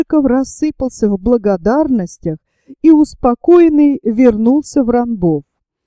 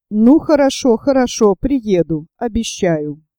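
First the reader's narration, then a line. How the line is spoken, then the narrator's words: Plain. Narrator (Russian): сказал он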